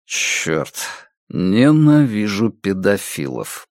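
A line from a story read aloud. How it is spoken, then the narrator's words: Muttering. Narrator (Russian): пробормотал Страйк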